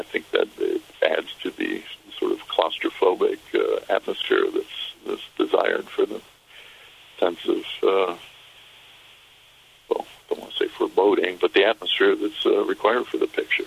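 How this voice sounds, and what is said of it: American accent. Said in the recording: “your accent does give you away as having been based, obviously, or started in America”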